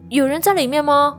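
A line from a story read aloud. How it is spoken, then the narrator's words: Sister calling out. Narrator (Chinese): 妹妹先开口喊了一声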